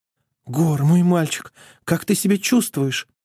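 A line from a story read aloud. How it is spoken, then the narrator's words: Anxious cooing. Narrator (Russian): взволнованно воркует княгиня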